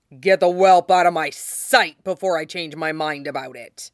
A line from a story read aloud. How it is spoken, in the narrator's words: Robert growled at him